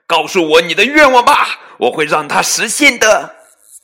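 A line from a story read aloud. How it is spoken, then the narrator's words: Proud shout. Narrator (Chinese): 菲比神气的冲他喊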